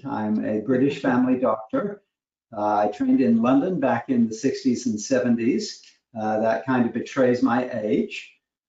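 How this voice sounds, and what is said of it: British accent. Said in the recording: “a little bit of a British accent”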